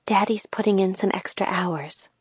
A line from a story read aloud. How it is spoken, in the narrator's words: my mom whispered when Sam was out of earshot